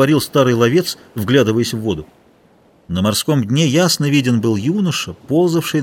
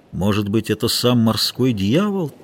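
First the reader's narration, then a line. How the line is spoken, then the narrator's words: Quiet. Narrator (Russian): тихо проговорил матрос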